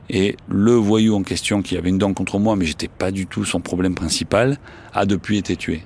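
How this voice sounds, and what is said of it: Marseille French accent. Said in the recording (French): “l'accent, je suis désolé, hein, j'ai un accent marseillais”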